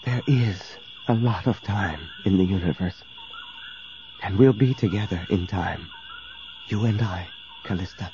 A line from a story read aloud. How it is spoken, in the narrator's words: whispered